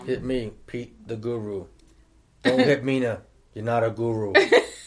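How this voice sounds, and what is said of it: Imitates another person's voice. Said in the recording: “In my DJ Khaled voice.”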